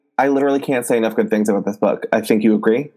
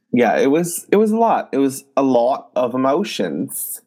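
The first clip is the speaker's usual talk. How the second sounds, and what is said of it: Jackie Aina impression, British-sounding accent. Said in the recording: “Was that supposed to be a British accent? ... No, I'm trying to be Jackie Aina. I love the way that she talks.”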